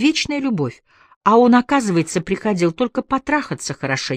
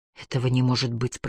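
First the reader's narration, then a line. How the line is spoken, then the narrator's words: Whisper. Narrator (Russian): прошептала Дебора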